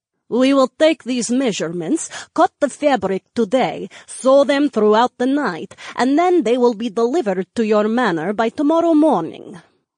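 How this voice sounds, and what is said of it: Thick foreign accent. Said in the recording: “tutted in a thick accent”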